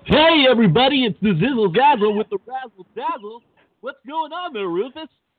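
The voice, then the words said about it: Exaggerated radio DJ voice. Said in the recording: “I really don't recognize your voice... I'm changing to this awesome radio voice”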